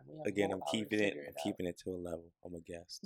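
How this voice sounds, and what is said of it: Whispering, hushed late-night voice. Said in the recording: “Why are you whispering? ... Trying to put on your late night voice?”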